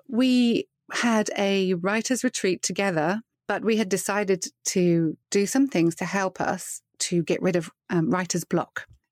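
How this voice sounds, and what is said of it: Accent not sounding Texan. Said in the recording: “I live just outside Dallas in Texas, although my accent may not push you in that direction.”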